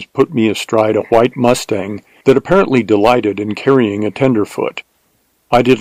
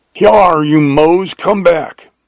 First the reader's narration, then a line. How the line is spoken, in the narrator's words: bawled Jones in stentorian tones